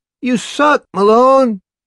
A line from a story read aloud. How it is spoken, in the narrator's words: a hearty male voice cries jovially